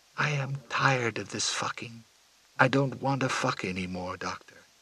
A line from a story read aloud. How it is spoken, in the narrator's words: As she was passing away, she whispered to the doctor